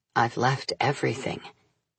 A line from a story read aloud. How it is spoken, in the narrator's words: he murmured wearily